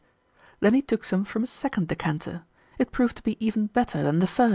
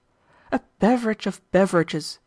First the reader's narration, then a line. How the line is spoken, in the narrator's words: he exclaimed